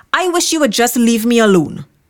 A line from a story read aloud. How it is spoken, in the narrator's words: He blurted out